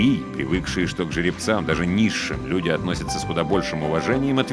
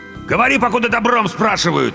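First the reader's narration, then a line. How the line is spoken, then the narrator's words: Barked. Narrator (Russian): рявкнул второй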